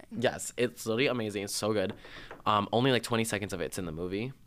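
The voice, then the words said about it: Strained, nearly lost voice. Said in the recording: “my voice is like fucked right now ... already lost it”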